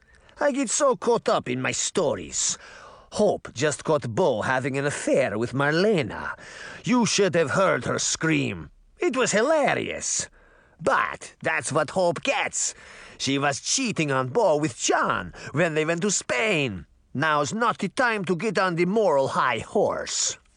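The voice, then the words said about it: Thick Russian accent character voice. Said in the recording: “she said in a thick Russian accent”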